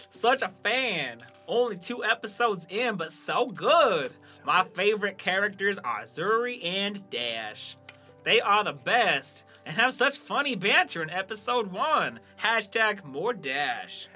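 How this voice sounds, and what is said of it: Put-on Western Southern accent. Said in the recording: “are you going to do an accent? ... That was my Western Southern.”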